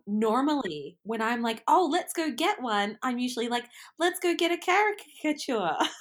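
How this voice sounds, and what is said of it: Australian accent. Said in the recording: “for you being Australian ... that's the Australian accent for you”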